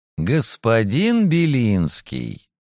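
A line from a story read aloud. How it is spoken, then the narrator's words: Mocking smile. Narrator (Russian): насмешливо улыбнулся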